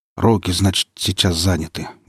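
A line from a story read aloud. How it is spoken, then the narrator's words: Grumble. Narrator (Russian): буркнул Ермак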